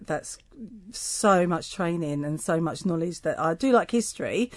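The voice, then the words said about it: East End London accent. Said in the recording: “people may guess from your accent ... you are originally from the East End of London”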